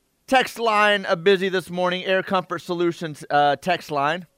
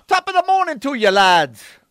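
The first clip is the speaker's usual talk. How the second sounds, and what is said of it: Put-on Irish-sounding accent. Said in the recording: “read this in a British accent... That would be Irish... That was Irish, yeah”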